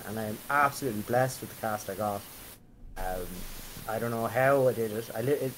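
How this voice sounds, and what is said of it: Waterford Irish accent. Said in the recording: “they're from Waterford, so it's my dialect. It's the way I talk.”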